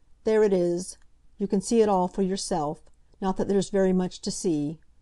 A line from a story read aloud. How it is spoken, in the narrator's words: he said sullenly